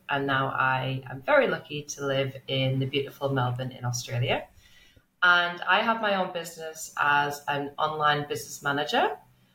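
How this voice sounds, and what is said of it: English accent. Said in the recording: “As you can tell from my accent, I'm originally from England.”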